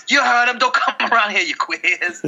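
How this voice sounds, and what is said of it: Put-on accent. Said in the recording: “it was an accent”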